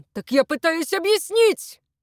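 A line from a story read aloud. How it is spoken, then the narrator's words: Roared. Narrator (Russian): Взревел Левецкий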